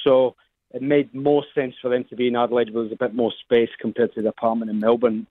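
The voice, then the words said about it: Scottish accent. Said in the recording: “we're loving the accent there ... your original Scottish cuisine”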